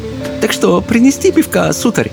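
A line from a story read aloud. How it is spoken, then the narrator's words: Flirtatious giggling question. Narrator (Russian): спросила хозяйка, снова кокетливо хихикнув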